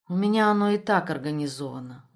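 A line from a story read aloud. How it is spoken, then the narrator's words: Weary. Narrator (Russian): устало ответила Тамара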